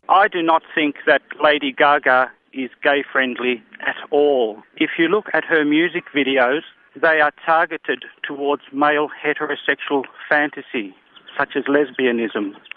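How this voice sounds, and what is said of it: Australian accent. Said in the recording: “that accent ... reached out to us from Australia”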